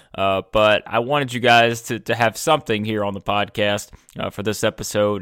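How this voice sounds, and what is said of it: Sick, rough-sounding voice. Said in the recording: “I am currently sick, and I know my voice sounds terrible”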